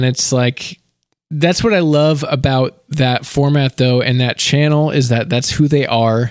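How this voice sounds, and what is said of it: Usual voice. Nothing is said of it.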